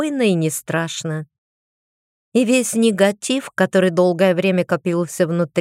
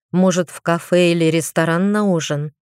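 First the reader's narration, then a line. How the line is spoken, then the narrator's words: Tired yawning question. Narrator (Russian): спросил он устало … зевая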